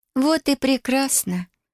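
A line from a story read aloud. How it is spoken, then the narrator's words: Gentle. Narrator (Russian): ласково произнесла девушка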